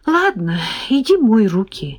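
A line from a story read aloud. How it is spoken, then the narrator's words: Sighing. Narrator (Russian): вздохнула я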